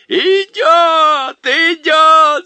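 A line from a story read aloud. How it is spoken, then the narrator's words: Group shouting. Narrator (Russian): закричали они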